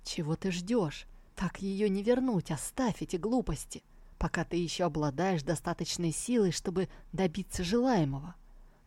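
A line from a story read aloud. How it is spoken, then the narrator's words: Impatient whisper into ear. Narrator (Russian): Он нетерпеливо зашептал ему прямо в ухо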